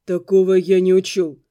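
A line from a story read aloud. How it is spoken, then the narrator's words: Muffled, hollow. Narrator (Russian): глухо сказал он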